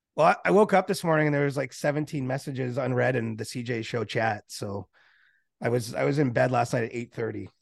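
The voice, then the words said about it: Sick, cold-affected voice. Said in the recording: “It's probably just a cold ... you can probably hear it.”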